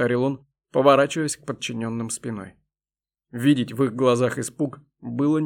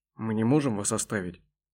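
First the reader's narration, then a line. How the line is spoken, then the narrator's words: Barely audible. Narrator (Russian): едва слышно произнес один из верноподданных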